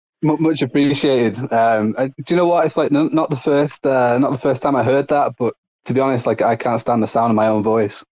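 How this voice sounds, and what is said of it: Speaks with a noticeable accent. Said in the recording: “You have a beautiful accent.”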